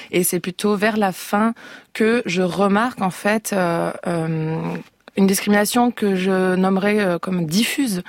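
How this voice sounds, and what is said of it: Aveyron regional French accent. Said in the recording (French): “quand vous arrivez à Paris depuis votre Aveyron natal avec un accent”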